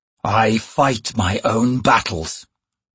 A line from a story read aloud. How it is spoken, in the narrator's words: Rake growled